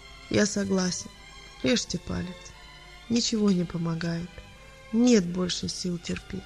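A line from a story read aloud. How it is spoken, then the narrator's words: Quiet. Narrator (Russian): тихо сказал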